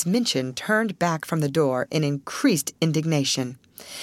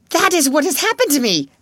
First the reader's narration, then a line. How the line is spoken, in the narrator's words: she cried